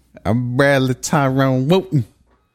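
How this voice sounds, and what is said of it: Put-on southern accent. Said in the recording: “I don't know why I'm doing like a southern accent”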